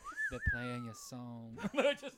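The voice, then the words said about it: Put-on Southern accent. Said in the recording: “Southern accent.”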